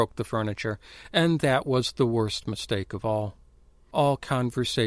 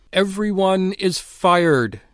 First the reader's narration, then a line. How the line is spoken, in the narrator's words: he cried into the silence, his voice like a plague of tongues